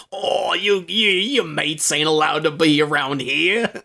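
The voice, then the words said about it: Mock Cockney accent. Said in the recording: “Vinnie Jones can't do anything but do a Cockney accent ... It was so bad.”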